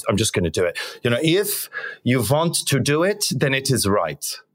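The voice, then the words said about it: Terrible put-on German accent. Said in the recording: “this is my terrible German accent right now”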